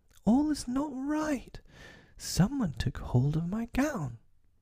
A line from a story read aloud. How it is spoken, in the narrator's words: she cried out to her sisters